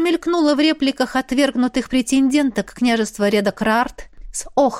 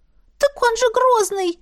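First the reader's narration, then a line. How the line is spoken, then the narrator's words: Frightened interjection. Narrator (Russian): испуганно встряла миниатюрная шатенка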